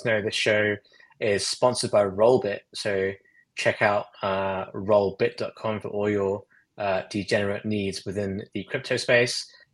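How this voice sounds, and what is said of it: Noticeable accent. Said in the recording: “the word skew probably sounds weird in my accent”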